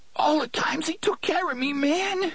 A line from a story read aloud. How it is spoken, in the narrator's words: he said, sobbing so hard the gunslinger could barely understand him